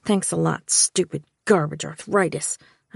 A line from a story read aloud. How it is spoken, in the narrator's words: I muttered into my pillow